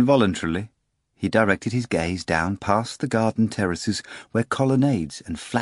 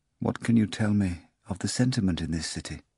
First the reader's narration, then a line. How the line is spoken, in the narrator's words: Pilate spoke quietly